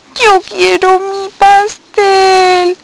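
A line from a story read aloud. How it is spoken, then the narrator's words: Sobbing. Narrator (Spanish): sollozaba Estela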